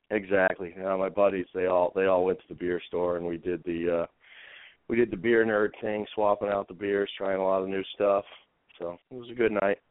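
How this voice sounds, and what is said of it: Raspy, groggy voice. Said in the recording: “Little groggy from watching last night's game, so voice a little raspy”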